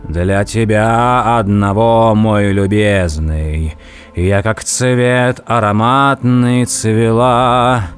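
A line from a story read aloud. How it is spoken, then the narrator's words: Singing in deep male voice. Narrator (Russian): она запела густым мужским голосом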